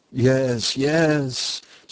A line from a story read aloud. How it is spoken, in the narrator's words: Sophocles groaned